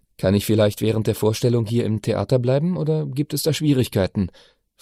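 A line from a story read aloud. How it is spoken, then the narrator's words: Plain question. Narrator (German): fragte Brunetti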